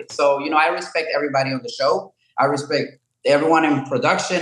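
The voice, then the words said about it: Speaks with a foreign accent. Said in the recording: “I have an accent”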